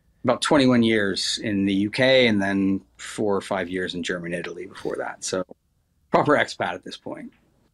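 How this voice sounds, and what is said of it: American accent. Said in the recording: “he's got an American accent, living in the UK.”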